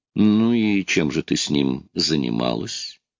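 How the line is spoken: Plain. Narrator (Russian): спросил я

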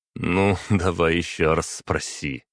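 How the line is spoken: Chuckling answer. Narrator (Russian): хохотнув, ответил я

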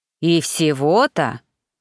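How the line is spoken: Growled. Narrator (Russian): прорычал Паси

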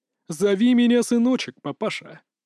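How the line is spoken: Creaky strange laugh. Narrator (Russian): Макс заскрипел своим странным хохотом

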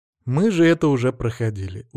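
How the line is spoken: Weary. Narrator (Russian): устало

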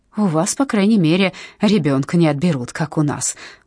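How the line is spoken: Angry, curt. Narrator (Russian): зло бросила Зельда

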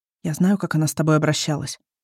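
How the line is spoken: Quiet. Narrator (Russian): тихо говорит он

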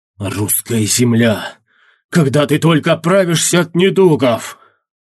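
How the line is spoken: Through clenched teeth. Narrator (Russian): Процедил сквозь стиснутые зубы Эрзя

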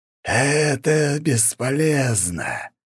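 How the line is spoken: Thunderous hiss, lich. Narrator (Russian): громогласное шипение лича

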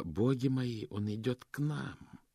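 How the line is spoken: Muttered. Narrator (Russian): Госпожа ласка пробормотала

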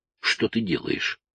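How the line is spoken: Whisper. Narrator (Russian): прошептал Тоби

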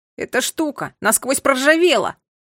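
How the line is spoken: Desperate shout. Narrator (Russian): отчаянно крикнул он

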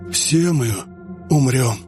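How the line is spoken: Breathed out. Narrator (Russian): выдохнул кроль

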